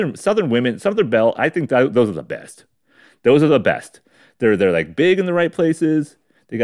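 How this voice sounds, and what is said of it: Usual voice. Nothing is said of it.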